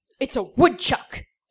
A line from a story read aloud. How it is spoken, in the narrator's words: Joey said indignantly